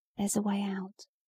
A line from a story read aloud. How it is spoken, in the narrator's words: he whispered